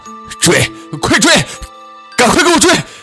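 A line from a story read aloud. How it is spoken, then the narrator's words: Alarmed hurried shout. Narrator (Chinese): 李文清大惊失色，连忙喊道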